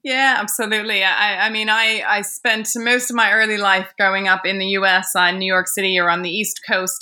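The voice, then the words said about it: American accent. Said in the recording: “you sound American”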